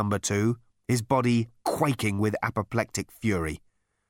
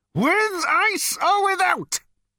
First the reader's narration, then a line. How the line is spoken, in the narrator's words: bellowed Number Two